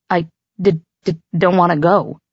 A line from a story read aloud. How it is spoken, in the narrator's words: Theo stammered